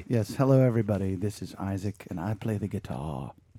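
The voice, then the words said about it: Poor put-on English accent. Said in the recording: “Is that your English accent? ... If it was, it was poor.”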